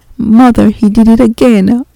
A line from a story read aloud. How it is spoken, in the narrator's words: Aubrey sobbed